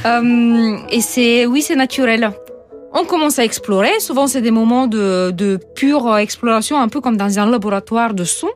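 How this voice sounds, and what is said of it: Non-native French accent. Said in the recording (French): “C'est depuis que je suis arrivée en France, ça s'est toujours pas amélioré ... Ah, mais faut garder cet accent, il est délicieux.”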